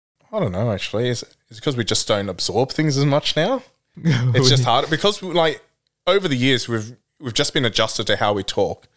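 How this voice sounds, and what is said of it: Australian accent. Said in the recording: “listen to your accent now ... Straight Aussie ... you would think he was just completely Australian”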